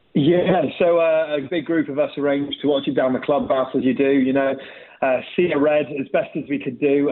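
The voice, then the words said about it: Slight Bristolian accent. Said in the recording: “A bit of a Bristolian accent”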